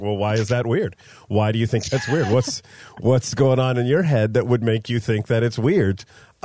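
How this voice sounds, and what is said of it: Impression of co-host's voice. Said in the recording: “You sound just like me. ... I do a solid Rachel impression.”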